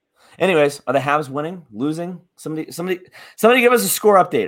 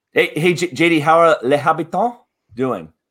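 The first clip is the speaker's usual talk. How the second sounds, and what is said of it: Put-on French accent. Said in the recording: “Was that good? Was that a good French accent?”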